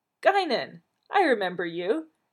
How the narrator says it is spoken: he exclaimed joyfully

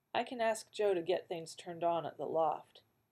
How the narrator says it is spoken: Mythos said quietly

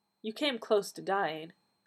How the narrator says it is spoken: the doctor said gently

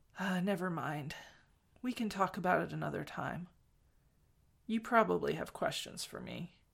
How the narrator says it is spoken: said, more softly

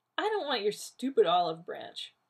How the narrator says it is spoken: Rodney said scornfully

